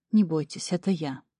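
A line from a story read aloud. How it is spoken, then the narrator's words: Soft-spoken baron. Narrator (Russian): мягко проговорил барон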